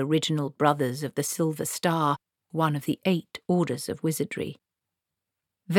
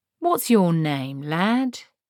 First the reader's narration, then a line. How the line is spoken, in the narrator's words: said, as kindly as possible